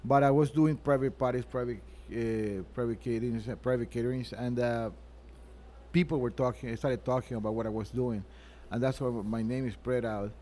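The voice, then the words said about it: Foreign accent. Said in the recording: “you speak English, Spanish, Italian, and French... All with an accent.”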